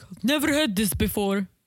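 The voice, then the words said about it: Imitates another person's accent. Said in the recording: “I just did Natalie accent.”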